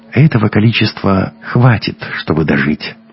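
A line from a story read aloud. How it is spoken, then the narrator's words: Gentle, smiling. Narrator (Russian): ласково улыбнулся Айем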